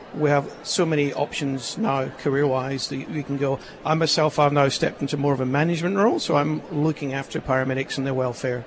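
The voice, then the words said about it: Scottish accent. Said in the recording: “notice a bit of a Scottish accent there”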